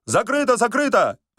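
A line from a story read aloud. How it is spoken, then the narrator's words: Hurried shout. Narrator (Russian): поспешно крикнул Остап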